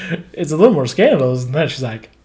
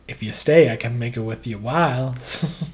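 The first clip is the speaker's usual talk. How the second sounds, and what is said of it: Put-on character voice. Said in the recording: “You're mixing all your voices. That was the Eli voice.”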